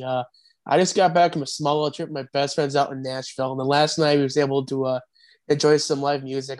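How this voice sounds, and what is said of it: Scratchy, hoarse voice. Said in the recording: “My voice sounds scratchy ... I was singing along pretty loud ... if I sound scraggy a little bit, that's why, because I sounded worse yesterday”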